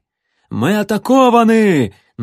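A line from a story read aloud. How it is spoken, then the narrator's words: Strained shout, coughing guard. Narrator (Russian): надорвано заорал закашлявшийся стражник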